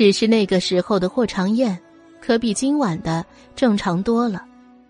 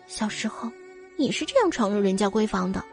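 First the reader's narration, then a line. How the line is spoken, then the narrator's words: Quiet muttering. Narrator (Chinese): 阮明星小声的嘀咕一句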